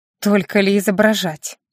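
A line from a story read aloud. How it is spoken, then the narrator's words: Hmphing, wry. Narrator (Russian): хмыкнула Доминика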